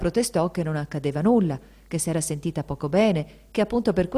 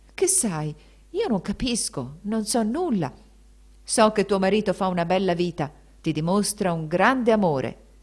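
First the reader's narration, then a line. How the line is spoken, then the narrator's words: Veiled menacing voice. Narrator (Italian): esclamò il barone con voce gravida di sorde minacce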